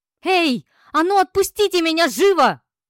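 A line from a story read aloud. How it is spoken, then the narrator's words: Yelling. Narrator (Russian): завопила я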